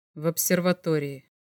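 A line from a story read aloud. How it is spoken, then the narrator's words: Quiet. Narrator (Russian): так же тихо ответил Мельников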